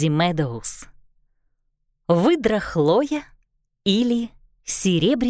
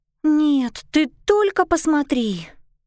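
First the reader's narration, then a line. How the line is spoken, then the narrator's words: Exclaiming. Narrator (Russian): воскликнула Лили Харт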